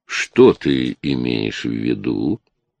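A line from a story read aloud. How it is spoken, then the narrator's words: Serene lazy purr. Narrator (Russian): промурлыкал Чарли безмятежно, словно ленивый тигр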